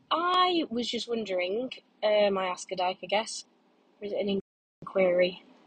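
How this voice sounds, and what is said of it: Congested, stuffy-sounding voice. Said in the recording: “I've got a bit of a cold.”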